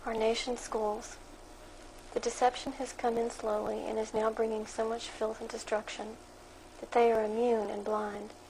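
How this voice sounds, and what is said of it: Monotone reading voice. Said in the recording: “I'm still reading straight off the blog here. That explains my monotone voice here.”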